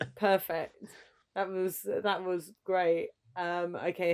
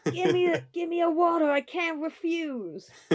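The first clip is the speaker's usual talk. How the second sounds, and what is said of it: Don Corleone Godfather voice impression. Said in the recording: “I was trying to do a voice. ... Marlon Brando as Don Corleone in The Godfather, the first edition.”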